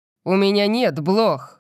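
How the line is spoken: Shout. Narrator (Russian): крикнул я

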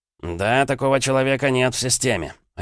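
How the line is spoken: Curt, sharp sergeant. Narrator (Russian): резко отрубил старший сержант

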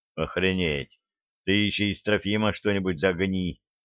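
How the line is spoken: Muttered. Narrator (Russian): пробормотал Денис

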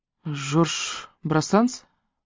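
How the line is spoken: Uncertain. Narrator (Russian): неуверенно произнесла Мона

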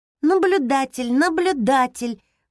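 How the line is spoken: Cheerful girl's voice. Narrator (Russian): повторила девочка веселым голосом

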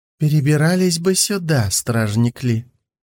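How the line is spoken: Purring. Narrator (Russian): промурлыкал Хэлань

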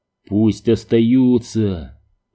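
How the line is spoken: Growled. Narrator (Russian): прорычал Сойер

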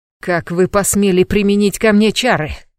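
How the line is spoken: Roaring. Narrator (Russian): взревел

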